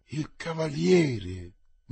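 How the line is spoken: Murmur. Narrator (Italian): mormorò Carlo

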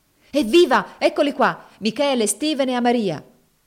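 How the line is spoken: Cheerful shout. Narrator (Italian): gridò allegramente Finea

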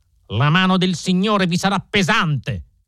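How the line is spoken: Young man shouting. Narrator (Italian): gridò il giovane Drebber

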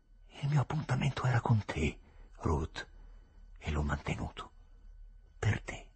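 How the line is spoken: Murmuring. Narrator (Italian): mormorò

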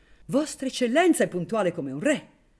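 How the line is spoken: Gentleman exclaiming. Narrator (Italian): esclamò il grazioso cavaliere

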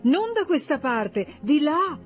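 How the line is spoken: Exclaiming. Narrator (Italian): esclamò Rezia

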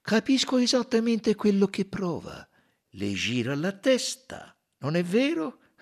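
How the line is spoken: Sympathetic tone. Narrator (Italian): disse Poirot in tono comprensivo

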